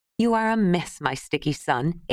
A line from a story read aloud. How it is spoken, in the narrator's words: motioned, laughing